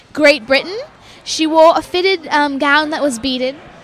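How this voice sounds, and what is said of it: Put-on British accent. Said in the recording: “British accent. ... I've been working on that for ... a few ... Years. ... I don't know what accent that was.”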